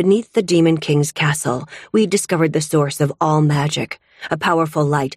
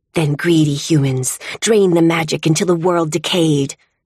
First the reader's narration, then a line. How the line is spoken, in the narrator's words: Biles hisses